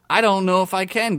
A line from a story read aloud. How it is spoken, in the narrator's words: Gary said